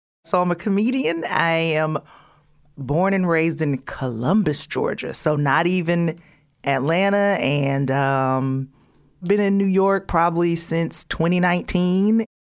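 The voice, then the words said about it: Southern twang. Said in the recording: “I'm sure the twang is probably already very apparent.”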